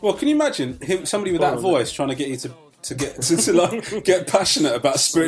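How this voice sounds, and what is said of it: Usual voice. Nothing is said of it.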